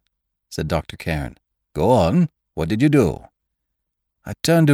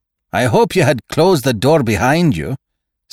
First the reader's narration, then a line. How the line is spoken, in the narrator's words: snapped Saunderson